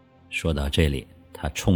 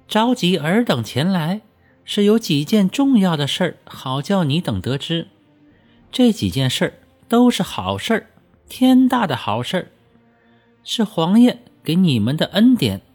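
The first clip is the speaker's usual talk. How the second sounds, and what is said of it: Shrill high-pitched voice. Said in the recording (Chinese): “尖着嗓子开口道”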